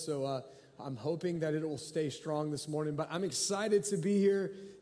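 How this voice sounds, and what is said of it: Voice recovering from a cold. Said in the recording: “my voice is, uh, is, is, recovering from having a cold”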